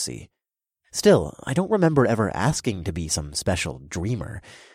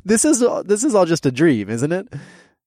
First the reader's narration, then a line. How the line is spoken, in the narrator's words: I chuckled, but it came out more nervous than I wanted